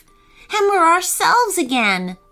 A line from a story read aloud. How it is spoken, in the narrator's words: sighed Eden